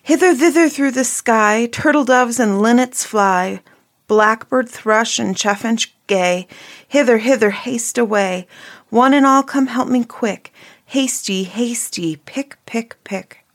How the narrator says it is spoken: the little maiden ran out at the back door into the garden and cried out

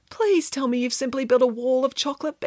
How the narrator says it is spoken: begged Samantha

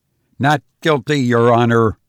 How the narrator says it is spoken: I replied, my voice firm

